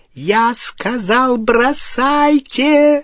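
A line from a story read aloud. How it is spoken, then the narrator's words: Shrieked. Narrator (Russian): провизжала Беллатриса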